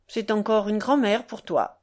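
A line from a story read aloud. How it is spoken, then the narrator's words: Old man, unpleasant voice. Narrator (French): Grand-père répondit d'une voix déplaisante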